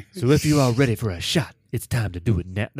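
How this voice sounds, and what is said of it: Smooth smoky radio announcer voice. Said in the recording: “That was my Warriors radio lady voice. That was not very good ... My smooth little smoky radio voice.”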